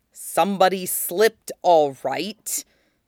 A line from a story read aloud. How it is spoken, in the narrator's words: Zuko growled